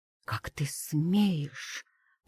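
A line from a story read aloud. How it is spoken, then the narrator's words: Hissed. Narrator (Russian): прошипела она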